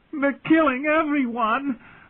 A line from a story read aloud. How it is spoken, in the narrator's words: had shrieked